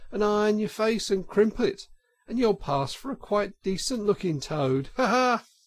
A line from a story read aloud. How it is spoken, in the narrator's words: cried out